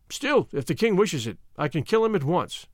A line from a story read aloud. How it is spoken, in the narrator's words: he added cheerfully